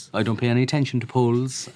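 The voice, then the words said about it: Put-on Cork accent. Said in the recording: “don't be doing the Cork accent”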